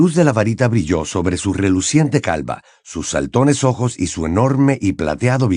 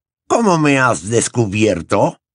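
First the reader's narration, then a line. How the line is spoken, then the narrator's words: Grunting. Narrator (Spanish): gruñó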